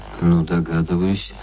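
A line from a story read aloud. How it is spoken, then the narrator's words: Skeptical, through gritted teeth. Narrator (Russian): сквозь зубы заметил скептик Плунский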